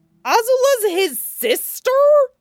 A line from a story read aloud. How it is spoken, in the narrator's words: Sokka squeaked